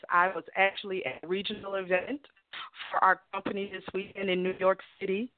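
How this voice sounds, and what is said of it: Hoarse, nearly lost voice. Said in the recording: “I do apologize for my voice... I'm without a voice right now”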